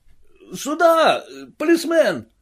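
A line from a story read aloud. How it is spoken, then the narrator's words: Shout. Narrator (Russian): крикнул кто-то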